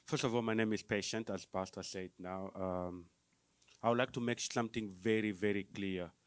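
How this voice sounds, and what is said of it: Non-American foreign accent. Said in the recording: “you can hear that by my accent ... it's very hard for you to understand me because I have an accent”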